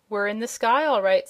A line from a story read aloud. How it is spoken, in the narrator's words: said the girl